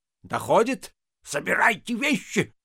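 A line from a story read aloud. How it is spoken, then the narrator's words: Shouting. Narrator (Russian): закричал завхоз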